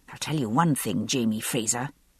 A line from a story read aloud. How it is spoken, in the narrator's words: I muttered under my breath